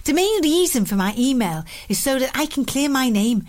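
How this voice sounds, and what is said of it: Put-on Scouse accent. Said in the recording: “say it in something in a pool accent ... Your Scouse accent was great ... listening to you read my email in a Scouse accent did make me laugh. Well, I'll do it again.”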